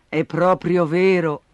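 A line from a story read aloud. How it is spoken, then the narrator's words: Mother sighing. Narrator (Italian): sospirò la mamma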